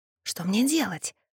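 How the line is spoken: Desperate whisper. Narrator (Russian): в отчаянии шепнула я Ингрид

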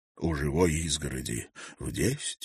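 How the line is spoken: Young man, quiet question. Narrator (Russian): тихо переспросил юноша

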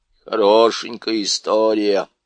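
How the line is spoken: Grumbling. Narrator (Russian): проворчал Никабрик

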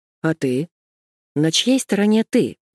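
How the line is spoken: Plain. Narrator (Russian): спросил Приходько

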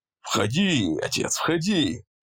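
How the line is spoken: Cheerful invitation. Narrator (Russian): Весело пригласил его Эллери

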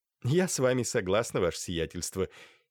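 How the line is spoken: Giggling lady. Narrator (Russian): хихикнула дама

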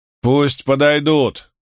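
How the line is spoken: Shouted. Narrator (Russian): крикнул Котис

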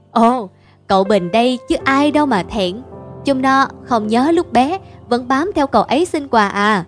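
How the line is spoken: Laughing loudly. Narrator (Vietnamese): Ông ba cười to đáp

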